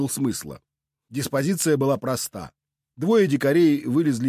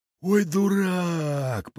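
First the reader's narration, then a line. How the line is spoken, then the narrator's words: Drawn-out drawl. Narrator (Russian): протянул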